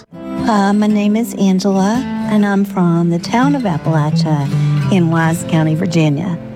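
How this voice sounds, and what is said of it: Appalachian accent. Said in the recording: “this is my Appalachian accent.”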